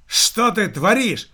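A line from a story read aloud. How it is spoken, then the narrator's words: Director shouting out. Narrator (Russian): выкрикнул директор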